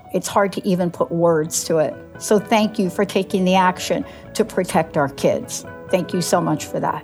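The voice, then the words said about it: Choked-up, emotional voice. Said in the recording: “I got a little choked up right there”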